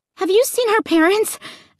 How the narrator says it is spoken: I asked breathlessly

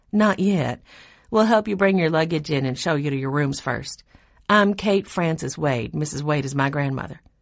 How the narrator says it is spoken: The taller of the two girls said calmly

